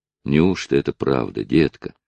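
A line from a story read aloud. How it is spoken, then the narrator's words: Gentle, affectionate. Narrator (Russian): сказал Натти, ласково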